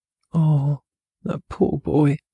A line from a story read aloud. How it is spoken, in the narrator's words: sighed Mrs